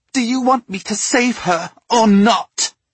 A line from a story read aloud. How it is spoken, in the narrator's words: She gritted her teeth, spat out